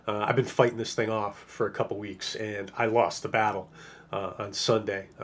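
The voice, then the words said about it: Sick, strained voice. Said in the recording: “my voice is in bad shape ... I become painful to listen to”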